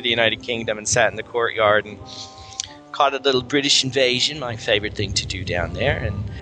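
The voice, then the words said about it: Put-on British accent. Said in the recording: “Was that your British accent right there?”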